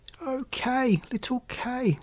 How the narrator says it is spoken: sighed Gerda

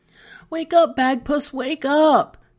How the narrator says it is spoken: she begged

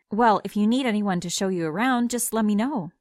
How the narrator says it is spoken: I said

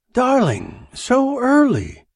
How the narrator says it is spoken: she cried

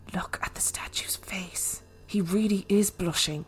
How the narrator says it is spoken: My sister whispered

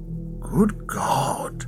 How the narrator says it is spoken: Ackley whispered

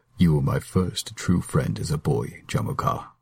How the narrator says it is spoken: Temujin said softly

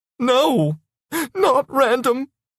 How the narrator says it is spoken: she said, sobbing

